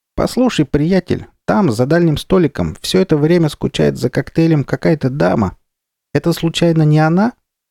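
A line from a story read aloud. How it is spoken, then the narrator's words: Cheerful squeak. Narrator (Russian): Моллюск Кривозуб весело пропищал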